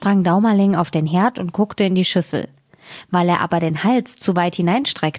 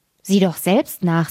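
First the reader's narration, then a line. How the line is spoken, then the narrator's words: Plain. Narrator (German): sagte die Mutter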